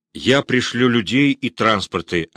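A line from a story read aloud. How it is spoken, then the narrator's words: Plain. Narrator (Russian): ответил Муравьев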